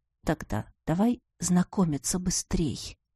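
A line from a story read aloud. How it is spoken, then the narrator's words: Suggesting after long pause. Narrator (Russian): после довольно продолжительной паузы предложил Ивар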